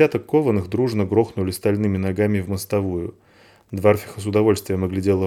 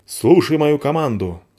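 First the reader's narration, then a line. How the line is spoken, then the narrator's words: Commanding bark. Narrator (Russian): рявкнула спичка внушительно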